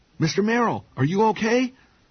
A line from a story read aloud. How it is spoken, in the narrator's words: Kevin cried